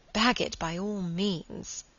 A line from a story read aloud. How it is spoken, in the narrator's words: murmured Margaret